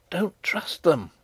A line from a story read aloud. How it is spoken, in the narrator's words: whispered Antoinette